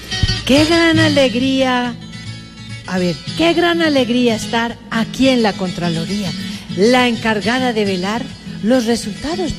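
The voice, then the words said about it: Sing-song intoned recitation. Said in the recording (Spanish): “con entonado acento”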